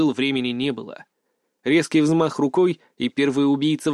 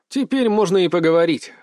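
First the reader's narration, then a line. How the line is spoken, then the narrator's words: Smirking grunt. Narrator (Russian): хмыкнул я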